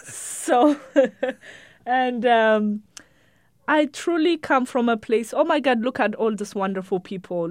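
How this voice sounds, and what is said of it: Immigrant's foreign accent. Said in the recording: “I'm an immigrant. Like, the accent, how I look, there is no hiding it.”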